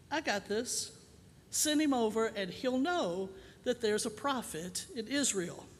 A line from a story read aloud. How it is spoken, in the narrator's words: Sir Alec Guinness of Obi-Wan Elisha calmly sends word to the king